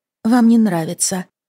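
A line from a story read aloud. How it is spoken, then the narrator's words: Dejected voice. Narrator (Russian): сказала Фиона упавшим голосом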